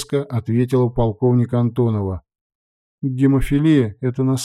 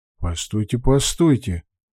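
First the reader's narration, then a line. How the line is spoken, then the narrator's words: Plain. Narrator (Russian): сказал я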